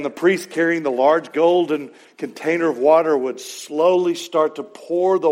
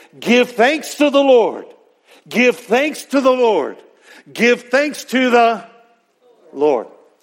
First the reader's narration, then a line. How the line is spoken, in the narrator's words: cry out three times in a loud voice